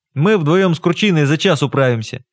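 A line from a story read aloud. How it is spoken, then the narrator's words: Cheerful. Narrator (Russian): бодро сказал Николай Тарасович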